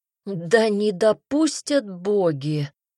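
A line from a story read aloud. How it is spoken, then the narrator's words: Pleading prayer. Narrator (Russian): взмолился Ирлинг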